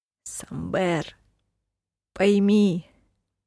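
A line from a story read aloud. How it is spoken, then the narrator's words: Muffled voice. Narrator (Russian): Голос шута звучал глухо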